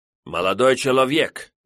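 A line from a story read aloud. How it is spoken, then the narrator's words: Indignant reply. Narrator (Russian): возмущенно ответил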